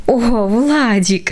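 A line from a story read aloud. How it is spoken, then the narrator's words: Involuntary laugh. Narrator (Russian): невольно рассмеялась мама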